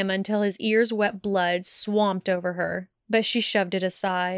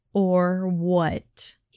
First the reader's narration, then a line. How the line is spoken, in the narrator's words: He growled